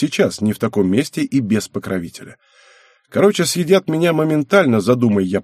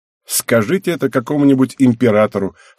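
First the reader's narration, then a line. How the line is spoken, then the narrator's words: Snorting. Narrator (Russian): хмыкнул я в ответ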